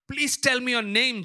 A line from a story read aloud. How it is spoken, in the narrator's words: Jacob said